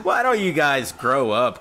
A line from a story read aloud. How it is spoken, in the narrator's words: Corey said wearily